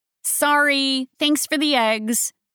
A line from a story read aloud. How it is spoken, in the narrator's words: she called out to the boy over her shoulder